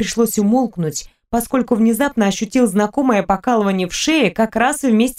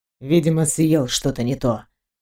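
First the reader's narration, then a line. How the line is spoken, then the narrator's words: Worried mutter. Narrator (Russian): пробормотал Левин, теперь ощущая беспокойство за подругу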